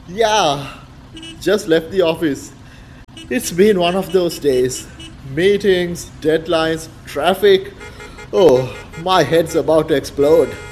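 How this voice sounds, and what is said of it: Tired, exhausted voice. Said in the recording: “you sound exhausted.”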